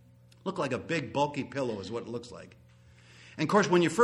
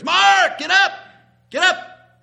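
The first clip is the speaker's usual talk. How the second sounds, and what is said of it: Yelled quoted line. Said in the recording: “he's yelling up the stairs”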